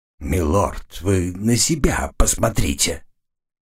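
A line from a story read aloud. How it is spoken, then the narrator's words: Hoarse wheeze. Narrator (Russian): прохрипел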